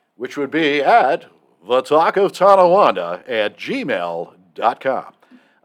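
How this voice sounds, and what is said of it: Exaggerated announcer-style radio voice. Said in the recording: “I had to get my radio voice for that. He he, he does that intentionally”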